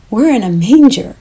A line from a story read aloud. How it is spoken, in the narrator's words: exclaimed